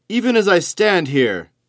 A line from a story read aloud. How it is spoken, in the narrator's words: bellowed